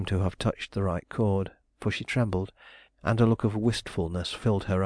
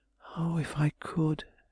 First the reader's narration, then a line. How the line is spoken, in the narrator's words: she murmured